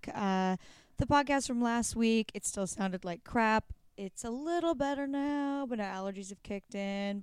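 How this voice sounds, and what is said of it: Hoarse, raspy voice. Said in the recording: “My voice is finally like mostly back ... I sound like I smoke a pack of cigarettes a day ... Now I sound like a badass.”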